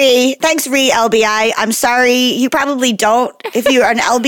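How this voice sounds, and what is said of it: Usual voice. Nothing is said of it.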